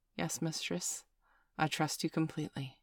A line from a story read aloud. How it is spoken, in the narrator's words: pause for a moment reply softly